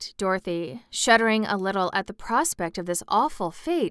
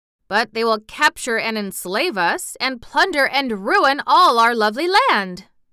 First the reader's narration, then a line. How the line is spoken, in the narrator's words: exclaimed the wizard, greatly disturbed by the statement